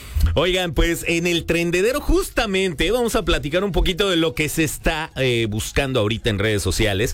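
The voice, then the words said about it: Strong Mexico City Spanish accent. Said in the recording (Spanish): “traigo como el acento muy, muy chilango ... A veces soy medio ñero.”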